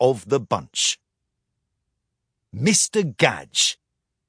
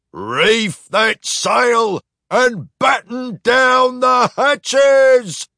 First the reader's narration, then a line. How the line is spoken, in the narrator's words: cried Captain Clockhart